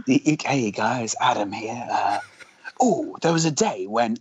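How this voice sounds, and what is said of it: Imitates another person's voice. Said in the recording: “your voice does change throughout the podcast. It sort of becomes a bit more comical towards the end. So a bit more like that.”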